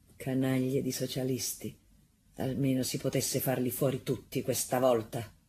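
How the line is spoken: Man muttering through teeth. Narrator (Italian): Un signore mormorò fra i denti

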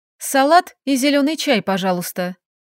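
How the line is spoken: Calm request. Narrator (Russian): я спокойно попросила

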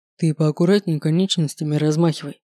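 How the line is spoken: Stern warning. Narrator (Russian): строго предупредил орка Седрик

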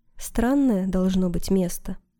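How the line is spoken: Plain. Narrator (Russian): сказала Джейн

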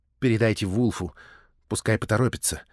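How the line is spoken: Soft. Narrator (Russian): мягко сказал Боултон

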